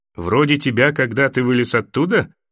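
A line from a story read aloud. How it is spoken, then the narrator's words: Laughing. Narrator (Russian): засмеялся Дарио Нахарис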